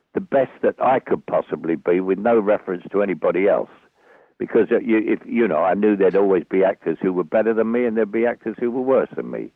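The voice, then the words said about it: Thick Cockney accent. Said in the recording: “I had a thick Cockney accent ... Cockney accent”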